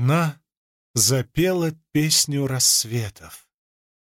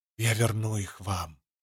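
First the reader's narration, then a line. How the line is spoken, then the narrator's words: Whisper. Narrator (Russian): прошептала Венли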